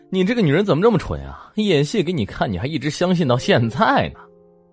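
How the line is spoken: Mocking laugh. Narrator (Chinese): 小弟笑着说

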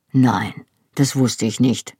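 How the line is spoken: Quiet answer. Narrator (German): antwortete er leise

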